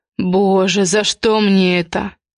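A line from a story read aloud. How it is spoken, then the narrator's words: Hissed. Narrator (Russian): прошипел Влад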